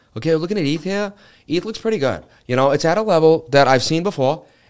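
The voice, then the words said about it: Mark Wahlberg impression accent. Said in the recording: “do ETH with a Mark Wahlberg accent”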